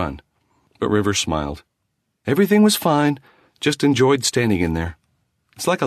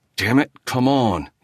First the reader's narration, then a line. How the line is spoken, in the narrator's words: he muttered